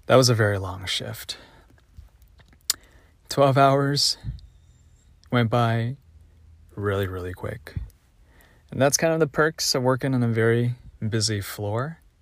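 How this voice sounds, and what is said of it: Hoarse, worn-out voice. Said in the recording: “my voice has been completely shot from notifying and calling the provider and talking to the charge nurse and talking to patients”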